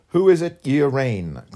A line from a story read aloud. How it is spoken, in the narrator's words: cried the young chief, indignantly